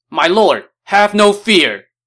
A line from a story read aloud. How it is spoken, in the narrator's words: shouted